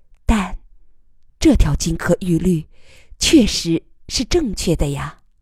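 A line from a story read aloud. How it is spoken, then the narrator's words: Soft. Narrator (Chinese): 余乐水轻声说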